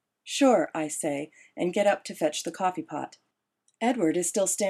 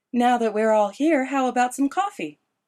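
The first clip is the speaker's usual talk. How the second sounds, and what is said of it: Sweet, honeyed voice. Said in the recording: “in a honeyed voice”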